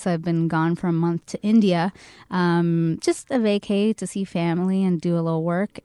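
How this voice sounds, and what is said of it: Low, hoarse voice from lost voice. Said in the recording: “my super sexy low voice right now. I actually lost my voice. ... came back and caught something. So I might be a little coffee today”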